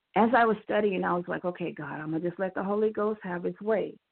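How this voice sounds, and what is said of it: Slightly raspy voice. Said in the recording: “excuse my voice, it's a little raspy”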